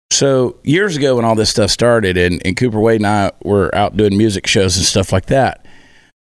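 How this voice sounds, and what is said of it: Hoarse, husky, nearly lost voice. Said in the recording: “Working on a couple of weeks here of no voice... it does make me sound very sultry”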